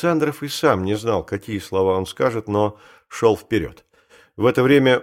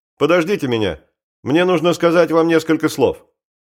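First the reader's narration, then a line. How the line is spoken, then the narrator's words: Shouted. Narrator (Russian): крикнул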